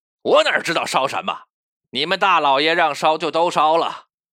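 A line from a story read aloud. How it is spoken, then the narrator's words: Irritated, curt. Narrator (Chinese): 知州最恨底下人叫他二老爷，没好气的说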